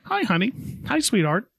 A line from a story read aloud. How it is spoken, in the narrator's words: cheerfully greets